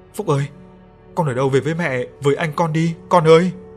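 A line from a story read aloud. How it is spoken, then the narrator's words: Wailing. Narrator (Vietnamese): bà miệng kêu gào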